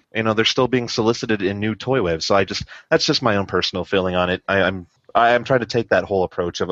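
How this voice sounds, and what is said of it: Usual voice. Nothing is said of it.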